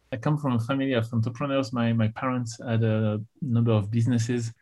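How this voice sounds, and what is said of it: French accent in English. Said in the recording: “in English, I have some accent ... I grew up in France”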